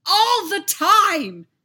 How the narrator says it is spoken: Anakin screamed

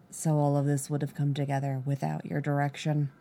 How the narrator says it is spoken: His voice was low, right next to her

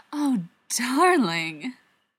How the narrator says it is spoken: Charlotte purrs

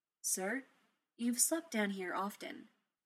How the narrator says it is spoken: Jarvis said, his voice smooth

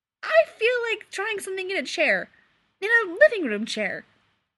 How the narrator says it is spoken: Clark said brightly

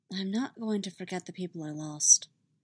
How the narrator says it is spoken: Padme says quietly

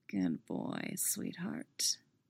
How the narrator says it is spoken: he murmurs

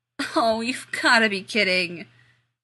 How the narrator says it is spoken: Rodney groaned

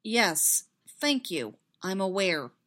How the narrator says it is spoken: Ani said flatly

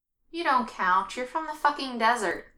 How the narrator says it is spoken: Matt says

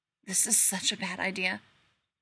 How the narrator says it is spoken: Rodney whispers shakily

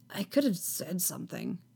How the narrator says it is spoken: Anakin mutters, not sure what else to say

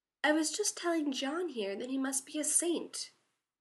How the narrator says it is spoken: Sam said sweetly

